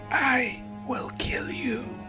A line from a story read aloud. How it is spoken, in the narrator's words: the voice droned again, raspy and seething